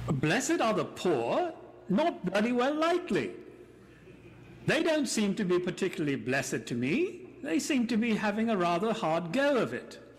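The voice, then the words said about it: Monty Python-style comic voice. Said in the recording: “saying all that in my Monty Python voice”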